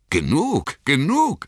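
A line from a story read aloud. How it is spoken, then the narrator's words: Elves calling out, laughing. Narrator (German): riefen die Elben und lachten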